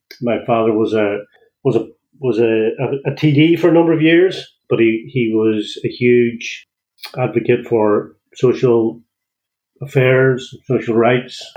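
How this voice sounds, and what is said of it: Donegal Irish accent. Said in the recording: “As you can hear, I don't have a Greystones accent. So I'm originally from Donegal.”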